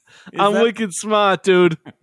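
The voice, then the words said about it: Put-on Boston accent. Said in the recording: “That actually does make you sound like you're from Boston.”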